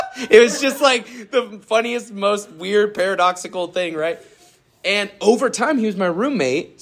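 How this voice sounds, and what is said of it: Usual voice. Nothing is said of it.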